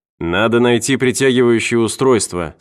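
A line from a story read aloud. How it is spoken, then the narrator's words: Plain. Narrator (Russian): сказал Кеннер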